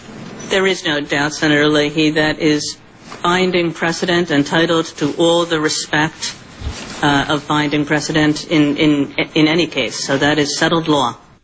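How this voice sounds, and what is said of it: New York accent. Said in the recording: “her accent because she sounds like the relatives I ran away from in New York”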